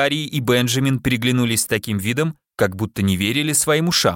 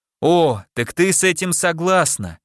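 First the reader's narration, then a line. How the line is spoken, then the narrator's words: Ironic exclamation. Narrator (Russian): воскликнул дядя ироническим тоном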